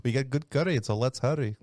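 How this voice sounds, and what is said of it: Put-on Scottish accent. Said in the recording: “You did a Scottish like, accent?”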